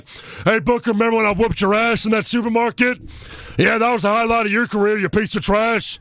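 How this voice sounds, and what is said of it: Imitates another person's voice. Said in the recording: “done my Stone Cold impersonation.”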